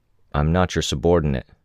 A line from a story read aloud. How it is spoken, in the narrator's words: Weld said